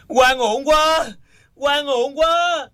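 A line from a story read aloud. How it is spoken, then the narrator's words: Anguished indignant loud shout. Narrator (Vietnamese): lòng đầy phẫn nộ, tâm hồn đau khổ, không quản đau đớn, đứng lên lớn tiếng hét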